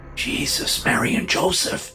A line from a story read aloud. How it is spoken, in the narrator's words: the man whispered